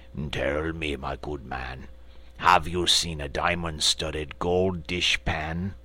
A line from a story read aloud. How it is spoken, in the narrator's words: the frogman said with a haughty croak